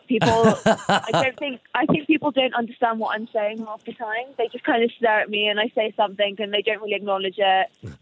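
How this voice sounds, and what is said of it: English accent, faintly Welsh. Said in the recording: “I have an English accent. It's not a very strong Welsh one”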